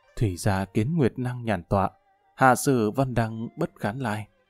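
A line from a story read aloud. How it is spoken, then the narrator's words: Deep sighing speech. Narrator (Vietnamese): thở dài thật sâu nói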